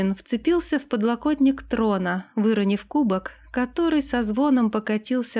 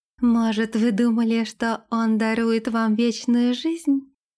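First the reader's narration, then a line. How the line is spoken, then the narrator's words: Gentle question. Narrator (Russian): ласково спросила Лилейна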